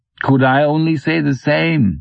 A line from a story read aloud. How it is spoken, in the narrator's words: laughs